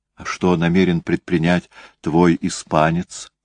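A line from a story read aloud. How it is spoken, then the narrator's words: Very quiet question. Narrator (Russian): спросила Эстер совсем тихо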